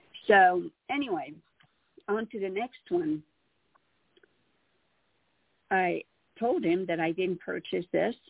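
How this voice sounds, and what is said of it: Slight non-native English accent. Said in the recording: “I still have a little bit of an accent since English is my fifth language”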